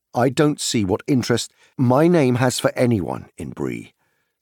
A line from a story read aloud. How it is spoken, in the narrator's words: said Frodo angrily